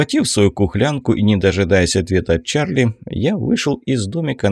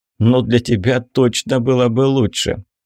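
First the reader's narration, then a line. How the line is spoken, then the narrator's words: Laughing. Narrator (Russian): Я рассмеялся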